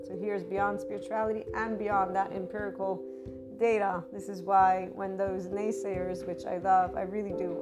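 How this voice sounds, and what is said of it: Strained, worn-out voice. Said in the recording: “my voice is being used. So my voice, for anybody who's new, is usually not like this, but my vocal cords have been. I've been using them a little bit too much”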